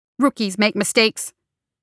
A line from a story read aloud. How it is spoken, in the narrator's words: snapped